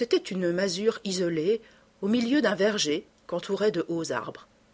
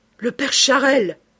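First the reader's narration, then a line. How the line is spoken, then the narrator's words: Exclaiming, mayor. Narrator (French): s'écria le maire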